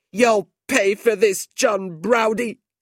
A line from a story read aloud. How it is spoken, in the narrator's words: Fanny Squeers said angrily